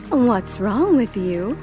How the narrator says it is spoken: her mother exclaimed

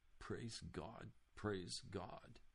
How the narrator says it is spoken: muttering tearfully

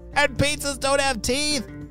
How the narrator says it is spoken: she shouted

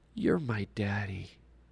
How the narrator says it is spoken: in a sleepy little child's voice half whispered

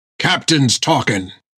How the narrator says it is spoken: growled Jack

